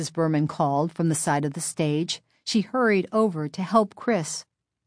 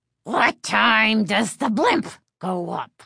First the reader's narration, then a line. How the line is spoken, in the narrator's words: he rasped, nastily